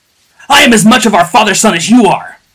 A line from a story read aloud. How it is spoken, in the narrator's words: bellowed Joja between blows